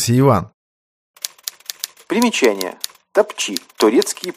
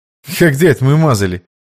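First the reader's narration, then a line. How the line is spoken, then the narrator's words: Smirking snort. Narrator (Russian): хмыкнул Иван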